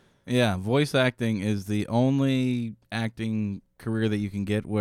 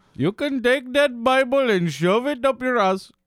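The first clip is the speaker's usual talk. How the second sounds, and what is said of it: Apu impression, Indian accent. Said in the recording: “that sounded very very good as an Apu impression.”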